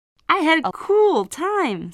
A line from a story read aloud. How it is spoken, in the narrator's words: said Leah happily